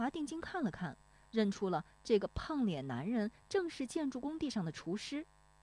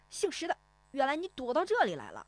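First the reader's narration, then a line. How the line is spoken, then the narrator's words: Loud grinning man. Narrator (Chinese): 那个买鱼的胖脸男人怔了怔，咧嘴大声说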